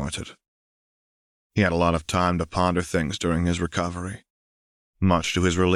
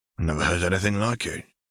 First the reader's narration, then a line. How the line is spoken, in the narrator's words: Gilbert murmured